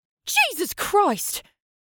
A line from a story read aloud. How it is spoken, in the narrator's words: She yelped